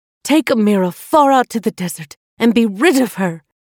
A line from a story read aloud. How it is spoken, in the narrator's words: Queen Kafiti called out in anger